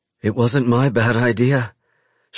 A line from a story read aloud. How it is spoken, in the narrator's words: she pants